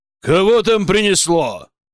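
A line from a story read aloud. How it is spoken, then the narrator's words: Irritated bark. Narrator (Russian): раздраженно гаркнул он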